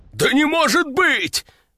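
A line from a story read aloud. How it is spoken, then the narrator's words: Exclamation. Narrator (Russian): воскликнул он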